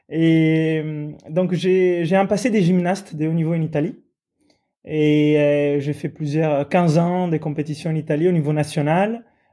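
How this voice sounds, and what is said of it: Italian accent speaking French. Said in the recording (French): “je suis italien. Vous entendez bien mon accent.”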